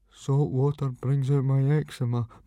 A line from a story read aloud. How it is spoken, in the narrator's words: mumbled Fishlegs